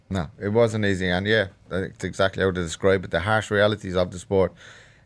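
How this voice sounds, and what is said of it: Irish accent. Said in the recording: “you're obviously Irish, you can hear from that accent of yours”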